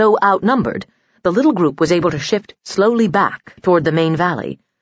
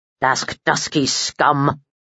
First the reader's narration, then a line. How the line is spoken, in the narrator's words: muttered Balkan